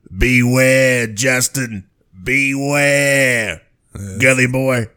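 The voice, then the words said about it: Creepy clown character voice impression. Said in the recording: “you do a pretty good voice ... Little Tim Curry is Pennywise ... Sounds like he's in the room with us”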